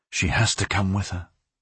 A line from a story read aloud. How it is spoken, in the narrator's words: Aureliano would say to himself in a low voice